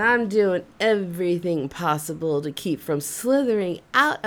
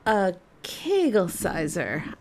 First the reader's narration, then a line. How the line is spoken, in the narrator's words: calmly replied